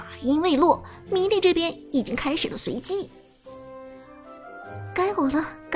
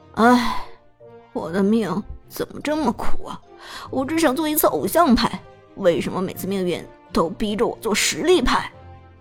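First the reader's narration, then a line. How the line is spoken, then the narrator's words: Helpless rueful sigh. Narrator (Chinese): 张哲伦一脸苦笑，无奈叹息道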